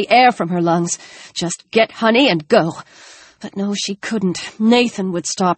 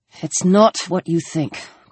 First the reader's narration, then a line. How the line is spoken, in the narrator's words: Chris said tightly